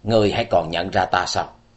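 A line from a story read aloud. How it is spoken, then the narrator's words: Cold voice. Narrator (Vietnamese): nàng cất giọng lạnh lùng nói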